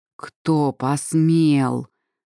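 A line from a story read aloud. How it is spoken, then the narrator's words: Growling. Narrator (Russian): прорычал Варах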